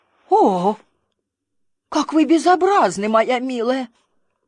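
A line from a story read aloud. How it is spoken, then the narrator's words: Old lady's exclamation. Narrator (Russian): старая дама воскликнула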